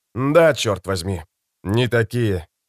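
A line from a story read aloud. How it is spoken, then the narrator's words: Sighing. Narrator (Russian): вздохнул Родригес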